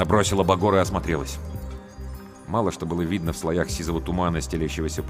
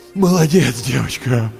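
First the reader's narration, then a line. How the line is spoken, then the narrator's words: Strained groan. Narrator (Russian): Простонал Андрей, с трудом поднимаясь на одно колено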